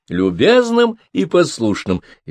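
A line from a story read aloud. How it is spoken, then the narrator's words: Cheerful. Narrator (Russian): весело сказала она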